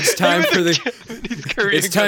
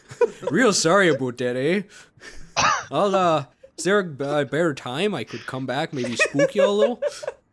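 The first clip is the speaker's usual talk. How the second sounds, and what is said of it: Put-on Canadian accent. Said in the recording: “Time for Canadian accent part two.”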